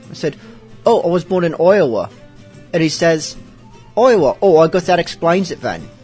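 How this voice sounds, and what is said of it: Imperfect put-on pirate accent. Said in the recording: “talking with a pirate accent ... my accent isn't really all that perfect ... me talking like this”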